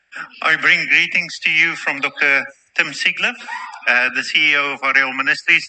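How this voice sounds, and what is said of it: New Zealand accent. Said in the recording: “By my accent, you can clearly hear that I'm not from around here. I'm from Auckland.”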